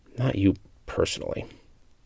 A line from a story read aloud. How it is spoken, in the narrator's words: Tamar muttered